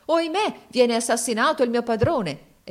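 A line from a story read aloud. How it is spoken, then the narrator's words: Exclaiming. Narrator (Italian): si esclamò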